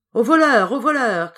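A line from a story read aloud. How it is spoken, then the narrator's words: Ogre shouting. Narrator (French): criait l'ogre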